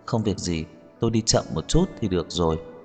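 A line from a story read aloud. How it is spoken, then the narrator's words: Soft laugh. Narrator (Vietnamese): Khả Hinh khẽ cười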